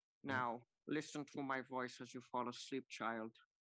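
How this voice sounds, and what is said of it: Alan Rickman impression. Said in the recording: “really good Alan Rickman impression”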